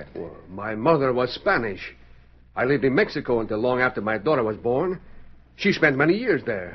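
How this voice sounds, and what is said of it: Slight foreign accent. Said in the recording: “You speak with a slightly foreign accent.”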